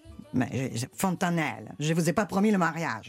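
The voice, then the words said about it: Imitated Italian accent. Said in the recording (French): “Vous imitez apparemment très très bien l'accent italien.”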